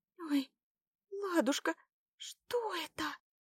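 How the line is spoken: Frightened babble. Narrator (Russian): Испуганно пролепетала Заряна

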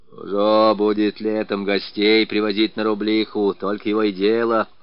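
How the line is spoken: Old man's jealous grumbling. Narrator (Russian): ворчал старик, ревновавший свою шахту к каждому постороннему глазу

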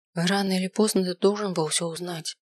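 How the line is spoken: Quiet. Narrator (Russian): тихо сказала она

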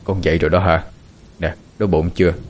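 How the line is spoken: Soft. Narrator (Vietnamese): Viên Quang khẽ nói

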